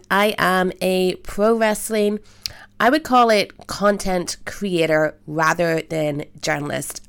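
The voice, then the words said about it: Northern Irish accent. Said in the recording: “That's a strange accent. ... I am from Belfast, Northern Ireland”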